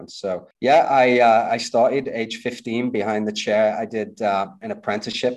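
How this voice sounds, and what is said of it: Slight British accent. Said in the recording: “I sense a bit of an accent. ... I'm originally from the UK.”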